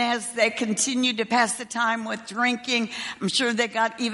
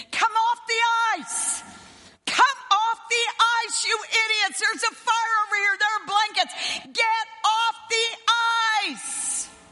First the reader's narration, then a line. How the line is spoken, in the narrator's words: All the soldiers that were around, stationed around the ice, kept screaming